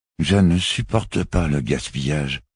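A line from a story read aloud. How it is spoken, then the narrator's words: Suddenly hoarse murmur. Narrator (French): murmura-t-il d'une voix subitement rauque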